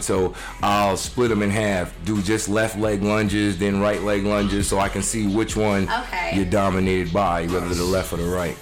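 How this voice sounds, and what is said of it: New York accent. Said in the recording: “people probably hear that old accent up in there. Right. Mr. New York”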